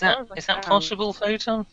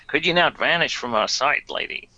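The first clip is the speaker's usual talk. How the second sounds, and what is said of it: Put-on American Bronx accent. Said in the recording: “I've got an American accent. ... suddenly he's gone to the Bronx.”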